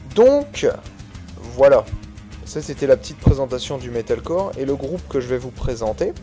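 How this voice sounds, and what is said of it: Usual voice. Nothing is said of it.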